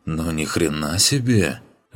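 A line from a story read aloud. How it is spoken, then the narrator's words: Awed exhale. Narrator (Russian): восхищенно выдохнул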